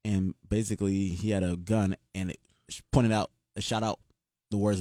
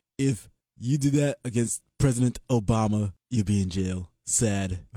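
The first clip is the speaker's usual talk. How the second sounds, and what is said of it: Rough Donald Trump impression. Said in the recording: “that's your Donald impression. ... I'm still working on it. ... keep working, my brother.”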